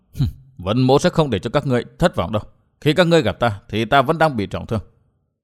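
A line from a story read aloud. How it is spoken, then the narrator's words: Low sinister laughing mutter. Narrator (Vietnamese): chàng cất giọng cười âm trầm lẩm bẩm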